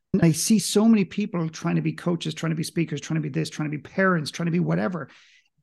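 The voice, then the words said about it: Mild Irish accent. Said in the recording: “I don't have a very strong accent. I'm clearly Irish, for most people would recognize that”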